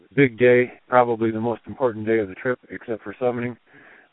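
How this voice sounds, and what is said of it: Tired-sounding voice. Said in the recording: “If I sound a little tired, I am.”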